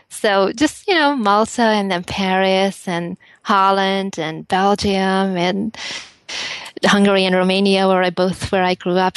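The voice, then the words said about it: Hungarian accent. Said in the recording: “accent is from Bulgaria? ... It's from Hungary. ... it's a beautiful accent.”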